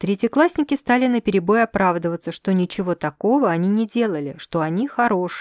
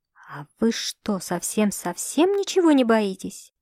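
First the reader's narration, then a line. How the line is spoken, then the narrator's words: Whisper. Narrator (Russian): прошептала она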